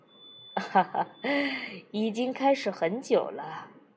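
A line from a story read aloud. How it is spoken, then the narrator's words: Light laugh. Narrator (Chinese): 詹勇笑笑说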